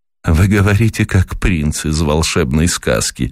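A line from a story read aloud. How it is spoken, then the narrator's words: Laughing, female. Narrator (Russian): рассмеялась она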